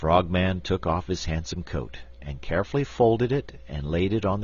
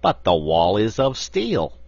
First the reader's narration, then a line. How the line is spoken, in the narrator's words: exclaimed the big frog